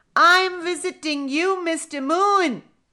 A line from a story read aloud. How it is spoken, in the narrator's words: the baby monkey shouted